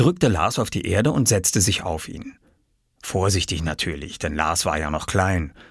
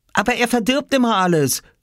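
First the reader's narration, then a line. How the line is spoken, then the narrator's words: Called out. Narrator (German): rief Oskar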